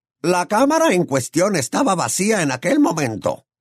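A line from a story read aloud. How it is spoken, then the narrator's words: Goblin snapping curtly. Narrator (Spanish): espetó el duende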